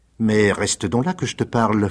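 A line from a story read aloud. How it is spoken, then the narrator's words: Coaxing voice. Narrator (French): fit Rocambole d'une voix câline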